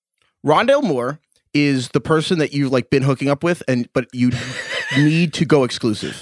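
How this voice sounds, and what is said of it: Imitates another person's voice. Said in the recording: “can I give a Craig impression about Rondale Moore? I want to do my Craig impression.”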